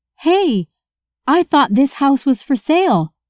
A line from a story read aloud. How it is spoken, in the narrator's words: Emma yelled to the realtor as she ran towards her